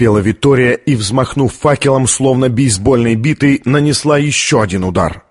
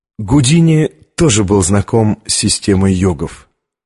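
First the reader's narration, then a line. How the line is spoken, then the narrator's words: Plain. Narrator (Russian): сказала она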